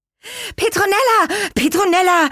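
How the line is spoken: Excited calling. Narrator (German): riefen sie aufgeregt

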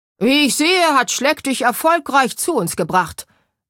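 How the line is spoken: Very loud booming man. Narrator (German): dröhnte der Mann so laut, dass sein riesiger Schnurrbart erzitterte

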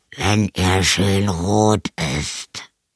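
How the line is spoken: Vampire growling from wardrobe. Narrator (German): knurrte der Vampir aus dem Schrank

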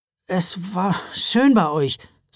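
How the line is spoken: Strangely hoarse voice. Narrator (German): sagte er, und seine Stimme klang seltsam heiser

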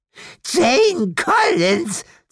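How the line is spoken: Hateful hiss. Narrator (German): zischte sie hasserfüllt

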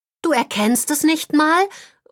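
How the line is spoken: Disappointed call. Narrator (German): ruft Holly enttäuscht

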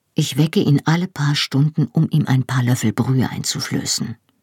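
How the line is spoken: Quiet. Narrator (German): sagte Bruder Roger leise

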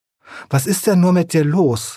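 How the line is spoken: Sobbing, hare. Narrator (German): schluchzte der Hase

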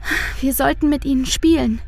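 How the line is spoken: Sigh. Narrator (German): seufzt Luise

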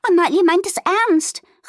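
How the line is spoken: Excited call. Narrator (German): rief Fiona aufgeregt

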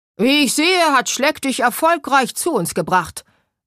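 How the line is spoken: Very loud booming man. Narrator (German): dröhnte der Mann so laut, dass sein riesiger Schnurrbart erzitterte

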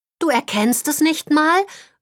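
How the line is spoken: Disappointed call. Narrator (German): ruft Holly enttäuscht

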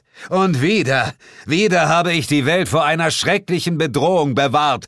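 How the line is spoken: Loud shout. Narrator (German): schrie ich laut

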